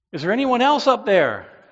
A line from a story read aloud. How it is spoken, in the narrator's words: the man called out